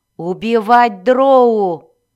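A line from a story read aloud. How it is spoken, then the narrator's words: Roared. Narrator (Russian): взревел Зак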